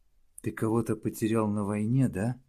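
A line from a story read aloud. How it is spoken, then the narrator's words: Gentle, affectionate question. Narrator (Russian): ласково спросила его Домина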